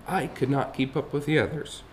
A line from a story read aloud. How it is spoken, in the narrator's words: he told the grown-up sadly